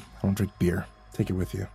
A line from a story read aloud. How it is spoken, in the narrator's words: he muttered